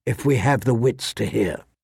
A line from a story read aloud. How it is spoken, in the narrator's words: she said softly